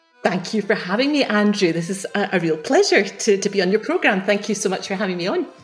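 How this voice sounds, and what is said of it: Scottish Edinburgh accent. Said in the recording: “you grew up in Edinburgh ... I've still got the accent to prove it ... Yes, I can hear that”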